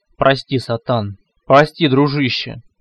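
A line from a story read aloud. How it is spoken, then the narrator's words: Bitter deep voice. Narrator (Russian): пробасил горько Рин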